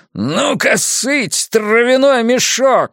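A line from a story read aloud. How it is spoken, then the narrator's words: Yelling. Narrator (Russian): вопит он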